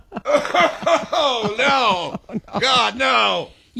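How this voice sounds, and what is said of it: Disgusted, gagging groans. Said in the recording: “my impression of me doing the garbage... You walk by a gross smell, and you're like, ugh.”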